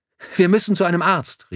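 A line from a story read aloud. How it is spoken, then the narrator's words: Called out. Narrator (German): rief die Schwester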